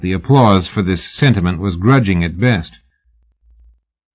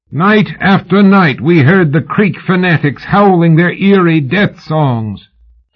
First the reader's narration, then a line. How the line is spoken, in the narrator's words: Houston shouted